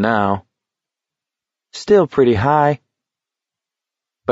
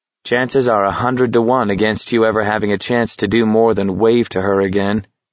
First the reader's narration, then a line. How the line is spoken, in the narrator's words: McVries said flatly